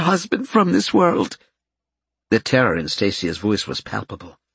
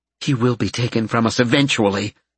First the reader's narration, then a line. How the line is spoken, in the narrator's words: Karen snapped